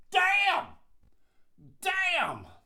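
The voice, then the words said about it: Loud yelling. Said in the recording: “he's yelling. He's just yelling... this person is loud... like loud enough”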